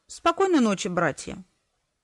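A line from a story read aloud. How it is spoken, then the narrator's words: Quiet, unsurprised. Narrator (Russian): нисколько не удивленный их присутствием, тихо сказал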